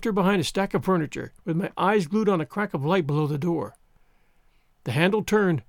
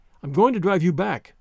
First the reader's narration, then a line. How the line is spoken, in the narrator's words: I said